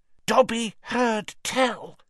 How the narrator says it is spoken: he said hoarsely

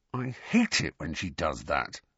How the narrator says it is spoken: grumbled Ron

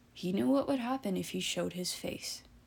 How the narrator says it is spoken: Jack spoke quietly

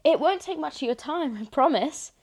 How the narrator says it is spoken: Louis blurts out, almost an apology

